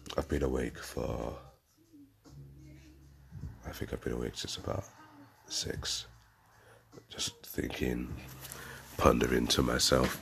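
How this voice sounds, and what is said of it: Very deep, just-woke-up voice. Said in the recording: “Excuse my voice this morning... if I sound super deep, it's literally my I've just woke up voice... it will start to mellow out”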